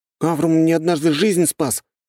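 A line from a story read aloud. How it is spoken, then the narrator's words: Fervent exclamation. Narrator (Russian): жаром воскликнул Вальхем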